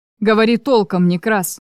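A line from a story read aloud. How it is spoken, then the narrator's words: Growled. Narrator (Russian): прорычал Чарослав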